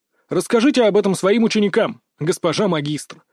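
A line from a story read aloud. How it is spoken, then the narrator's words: Scornful snort. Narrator (Russian): фыркнул я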